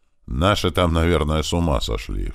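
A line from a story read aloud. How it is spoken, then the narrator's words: Snorting chuckle. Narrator (Russian): хмыкнул туман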